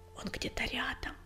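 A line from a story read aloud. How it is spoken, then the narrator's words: Whisper. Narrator (Russian): прошептал Белыш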